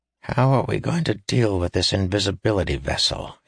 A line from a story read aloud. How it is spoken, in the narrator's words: he asked quietly, looking uncomfortable at the mere concept